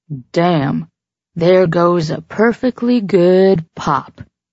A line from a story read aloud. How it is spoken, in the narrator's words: Trigger drawled